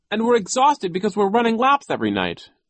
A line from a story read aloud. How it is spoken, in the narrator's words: Klaus cried